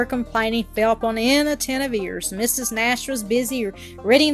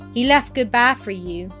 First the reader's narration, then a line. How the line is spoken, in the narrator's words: said Claire